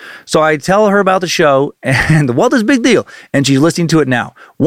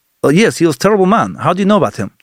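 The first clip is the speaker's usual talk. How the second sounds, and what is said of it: Thick put-on Russian accent. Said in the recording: “She immediately goes in a thick Russian accent.”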